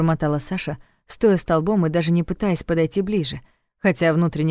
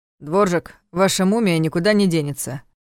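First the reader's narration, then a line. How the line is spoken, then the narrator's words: Gloomy voice through earpiece. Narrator (Russian): мрачно сказал в наушнике голос Вани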